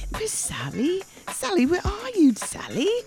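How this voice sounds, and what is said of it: Put-on English accent. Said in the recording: “Sound like Mary Poppins ... I did my best English accent.”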